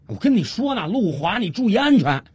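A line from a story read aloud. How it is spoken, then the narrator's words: Anxious call. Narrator (Chinese): 他心里急啊，于是他又接着喊了一句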